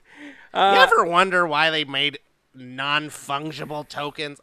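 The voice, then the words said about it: Imitates another person's voice. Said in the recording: “I feel like Andy Rooney ... I screwed up my impression. ... it already sounded like it's something that he would say”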